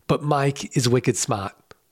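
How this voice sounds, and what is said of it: Put-on Boston accent. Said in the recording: “I'm not going to speak in a Boston accent ... All right, fine. I did it.”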